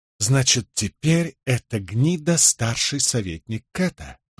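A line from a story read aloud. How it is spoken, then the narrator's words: Through gritted teeth. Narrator (Russian): процедил Николас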